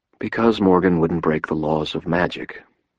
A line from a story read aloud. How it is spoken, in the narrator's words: I said quietly